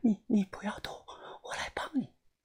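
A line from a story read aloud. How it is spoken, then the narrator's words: Panting. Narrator (Chinese): 他爬着靠近我，喘着气说道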